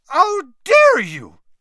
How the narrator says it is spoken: shrieked Madame Maxime

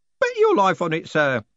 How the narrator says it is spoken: said Groat cheerfully

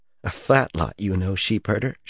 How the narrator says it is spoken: muttered

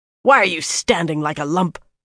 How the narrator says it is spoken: Samarin snarled

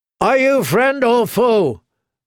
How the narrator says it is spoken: Black Lauren bellowed down

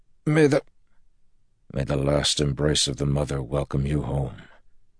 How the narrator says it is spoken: Lan said softly

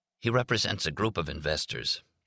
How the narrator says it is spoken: Jack said hoarsely

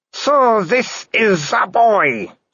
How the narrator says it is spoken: said the Baroness, her voice slurring

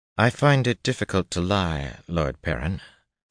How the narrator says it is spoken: Seonid said dryly

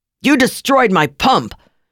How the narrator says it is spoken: the attendant yelled, totally out of breath and totally beside himself

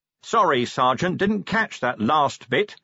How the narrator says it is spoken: said Vimes loudly

